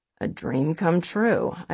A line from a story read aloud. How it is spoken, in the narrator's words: I grumble, because really, if it took losing a leg to get him to notice me, I'd rather be ignored